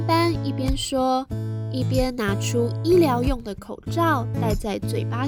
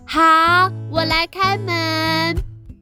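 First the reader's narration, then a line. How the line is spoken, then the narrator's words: Loud answer. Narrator (Chinese): 斑斑大声的回答妈妈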